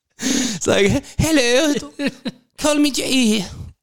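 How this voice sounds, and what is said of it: Put-on French accent. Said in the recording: “Is that your French accent?”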